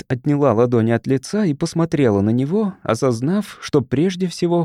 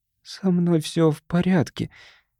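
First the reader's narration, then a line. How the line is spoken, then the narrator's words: Barely audible. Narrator (Russian): еле слышно проговорила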